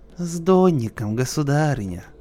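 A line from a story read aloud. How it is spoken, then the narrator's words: Sweet-voiced reply. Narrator (Russian): отвечал сладким голосом Теляев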